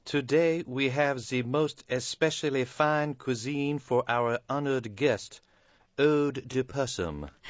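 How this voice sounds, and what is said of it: Fake fancy French accent. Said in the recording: “Buzz spoke in a fake, fancy French accent ... maintaining the fake accent”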